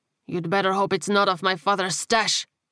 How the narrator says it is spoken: Angel growled

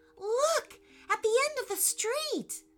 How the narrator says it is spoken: said Eli excitedly

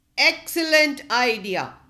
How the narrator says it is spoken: said the chief

